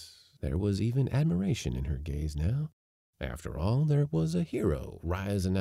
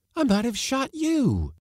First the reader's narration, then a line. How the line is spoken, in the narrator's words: she exclaimed